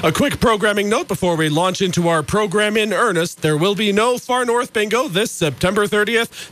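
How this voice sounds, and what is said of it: Congested voice, slightly off from normal. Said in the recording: “my voice sounds a little different than normal, it's because I've been getting over a cold for the last couple of days”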